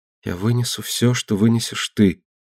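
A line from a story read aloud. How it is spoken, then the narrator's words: Whispered. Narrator (Russian): прошептал Астер на мои упреки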